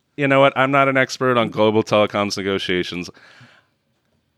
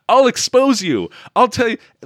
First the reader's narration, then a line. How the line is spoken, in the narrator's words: he actually yells at him